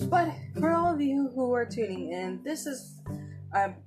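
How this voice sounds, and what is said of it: Usual voice. Nothing is said of it.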